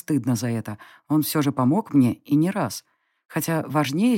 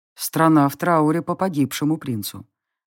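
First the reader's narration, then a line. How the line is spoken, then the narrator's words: Grim. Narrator (Russian): мрачно закончил он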